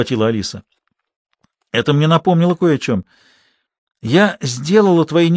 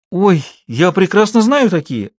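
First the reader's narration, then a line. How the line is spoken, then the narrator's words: Exclaimed. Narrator (Russian): воскликнула Шула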